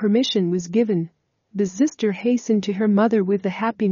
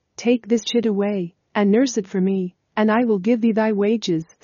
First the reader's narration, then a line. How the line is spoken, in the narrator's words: said the princess